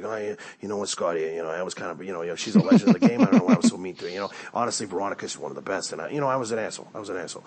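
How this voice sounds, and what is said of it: Imitates another person's voice. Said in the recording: “That's my CT impression.”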